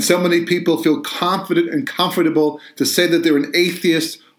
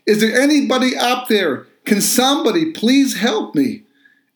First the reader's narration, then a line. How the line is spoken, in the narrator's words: he began to yell out